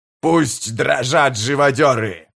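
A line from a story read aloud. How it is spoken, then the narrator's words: Roared. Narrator (Russian): проревел он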